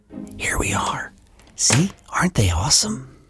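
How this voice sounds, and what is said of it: Whispering, soft voice. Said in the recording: “why are we whispering? I was trying to use my normal volume voice, but it feels like I can't.”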